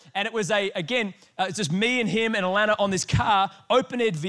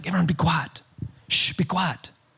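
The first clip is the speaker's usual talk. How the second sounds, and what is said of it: Imitated accent of a guide. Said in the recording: “The accent's pretty good, huh? I've been working on it.”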